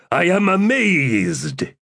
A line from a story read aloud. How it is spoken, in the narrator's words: He bellowed